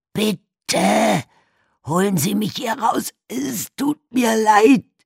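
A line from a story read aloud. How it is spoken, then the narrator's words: Shouting. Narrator (German): schrie Walter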